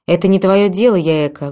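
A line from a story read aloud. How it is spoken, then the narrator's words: Rude cutting interruption. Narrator (Russian): грубо оборвала ее мама Масака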